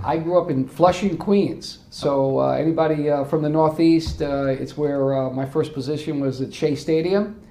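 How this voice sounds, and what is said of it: Non-Southern American accent. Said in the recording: “I have tried to work on my accent since 2012. It just, unfortunately, I've been a total failure, so I haven't really acculturated language-wise”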